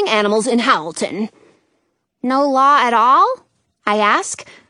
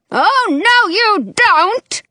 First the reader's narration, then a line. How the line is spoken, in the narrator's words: Dottie shouts